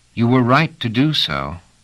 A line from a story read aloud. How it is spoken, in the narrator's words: said Dom, seated, his aged, deep-set eyes looking earnestly up